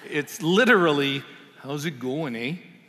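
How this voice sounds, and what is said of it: Put-on Canadian accent. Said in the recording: “speak Canadian”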